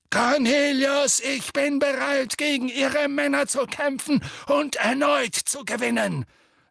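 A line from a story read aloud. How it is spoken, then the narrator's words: Thundering voice. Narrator (German): sagte Dumbledore mit donnernder Stimme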